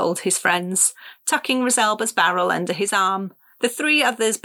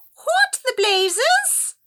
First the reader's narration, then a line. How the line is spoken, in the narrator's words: shrieked